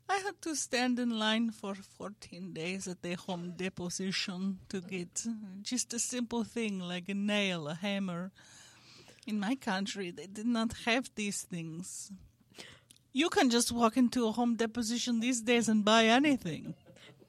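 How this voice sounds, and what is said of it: Put-on Eastern Bloc accent. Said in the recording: “your accent's getting so much better ... That was good ... It was a very Eastern Bloc.”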